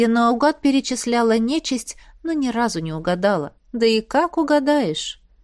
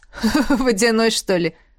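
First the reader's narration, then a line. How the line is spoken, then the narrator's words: Chuckling. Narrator (Russian): хохотнул змей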